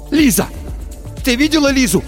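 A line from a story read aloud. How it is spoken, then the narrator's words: Shout. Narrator (Russian): закричал Тихон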